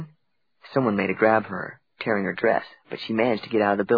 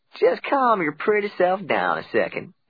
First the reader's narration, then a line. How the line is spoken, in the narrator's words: the sheriff said in a slow drawl